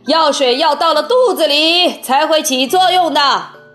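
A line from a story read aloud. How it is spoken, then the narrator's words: Shouting. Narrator (Chinese): 温克先生叫道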